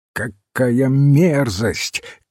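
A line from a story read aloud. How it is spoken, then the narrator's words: Shouting. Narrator (Russian): крикнул сэр Джон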